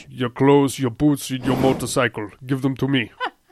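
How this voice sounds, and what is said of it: Arnold Schwarzenegger impression. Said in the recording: “do a Arnold Schwarzenegger impression”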